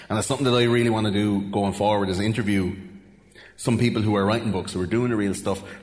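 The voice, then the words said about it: Irish Wexford accent. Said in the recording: “my Wexford accent”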